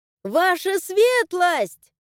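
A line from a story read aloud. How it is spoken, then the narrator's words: Shouting. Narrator (Russian): заорала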